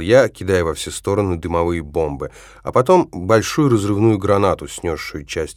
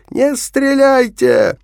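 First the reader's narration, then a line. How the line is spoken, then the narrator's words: Hoarse shout. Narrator (Russian): хрипло крикнул я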